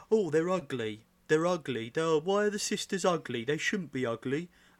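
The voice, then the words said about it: Imitates another person's voice. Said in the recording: “That's a terrible impersonation of Quipster. ... Yeah, I thought it was spot on.”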